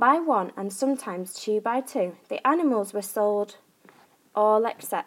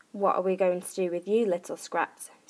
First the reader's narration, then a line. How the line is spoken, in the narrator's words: sighed